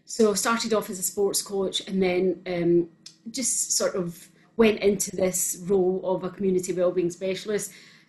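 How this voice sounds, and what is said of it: Scottish accent. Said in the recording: “as you could probably tell with the Scottish accent.”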